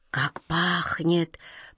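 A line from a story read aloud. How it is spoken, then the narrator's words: Whispered. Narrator (Russian): прошептал Каргор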